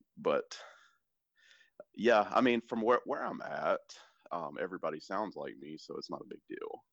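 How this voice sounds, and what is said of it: Southern American accent. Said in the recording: “it's with an accent ... I think that my southernness comes out.”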